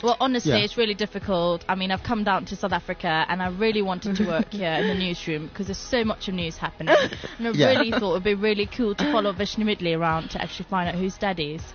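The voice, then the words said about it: Put-on British accent. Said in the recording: “There's a British journalist ... Do the accent ... she's got this Indian-British background”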